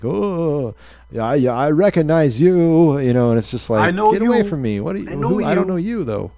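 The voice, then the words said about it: Imitates another person's voice. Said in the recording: “do a Robert De Niro impression ... You kind of frown as you're saying it”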